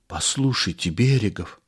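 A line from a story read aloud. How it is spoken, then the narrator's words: Whispered. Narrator (Russian): зашептал Кашицын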